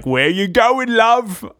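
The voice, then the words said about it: Put-on British accent. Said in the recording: “that's my British accent again.”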